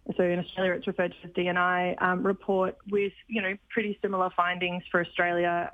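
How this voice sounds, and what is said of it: Australian accent. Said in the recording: “I'm sure you can tell by my accent, I am Australian.”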